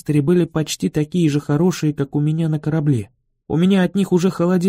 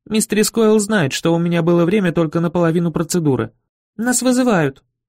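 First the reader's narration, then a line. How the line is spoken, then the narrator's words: Squeaky girl's voice. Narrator (Russian): пискнула девочка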